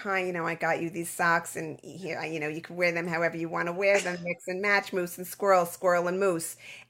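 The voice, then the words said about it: Fast-talking New Yorker character voice. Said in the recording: “Where did that voice come from? Where did that laugh come from? ... It said fast talking New Yorker.”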